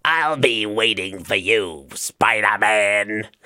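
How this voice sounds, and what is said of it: Imitated Green Goblin villain voice. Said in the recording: “it sounds a bit more like Green Goblin from Spider-Man ... my Willem Dafoe impression ... I know it doesn't sound perfect”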